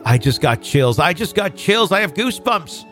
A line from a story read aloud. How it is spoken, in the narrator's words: my mom frantically blurted